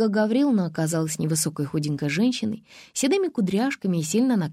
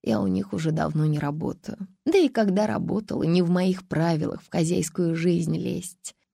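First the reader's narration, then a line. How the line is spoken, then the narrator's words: Sighing, apologetic woman. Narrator (Russian): Женщина вздохнула и сказала, точно извиняясь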